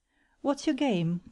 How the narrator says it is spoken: cried he

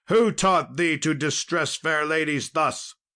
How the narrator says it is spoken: shouted he

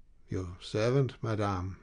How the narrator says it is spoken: replied dryly

